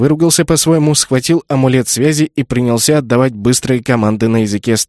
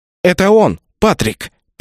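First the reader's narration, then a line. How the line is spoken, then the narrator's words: Through clenched teeth. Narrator (Russian): процедила Рэйчел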